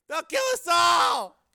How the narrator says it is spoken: He shrieked

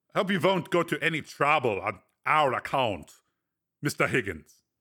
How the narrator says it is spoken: said Breck

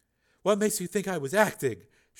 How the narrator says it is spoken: She asked softly

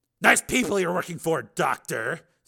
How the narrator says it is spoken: Steele said savagely

